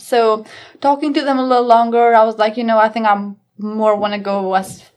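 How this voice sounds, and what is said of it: Noticeable non-native accent. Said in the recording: “they're going to pick on my accent and they're going to be like, I don't understand what you're saying”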